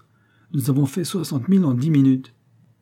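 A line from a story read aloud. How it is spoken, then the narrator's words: Exclaimed. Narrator (French): s'écria Tisson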